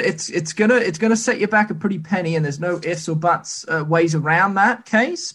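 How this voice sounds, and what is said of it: New Zealand accent. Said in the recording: “That accent just gets me every single time. I love you guys from England... I'm actually from New Zealand”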